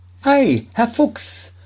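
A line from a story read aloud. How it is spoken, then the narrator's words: Called out. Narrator (German): rief Schneiderlein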